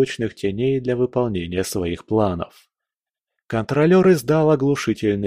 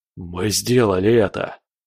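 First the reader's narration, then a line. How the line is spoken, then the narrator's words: Joyful exhale. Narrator (Russian): выдохнул обрадованный Боря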